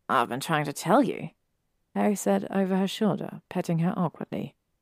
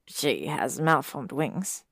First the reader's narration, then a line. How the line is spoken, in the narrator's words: Harry murmured